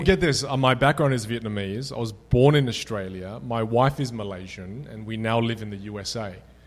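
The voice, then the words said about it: Australian accent. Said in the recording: “you're Australian ... with a great Australian accent”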